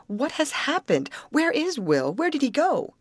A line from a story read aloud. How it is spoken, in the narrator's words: cried Grace, clinging to his arm